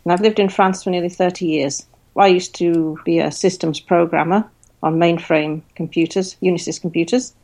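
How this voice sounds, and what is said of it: English accent. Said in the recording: “I am English, as you can probably hear from my accent”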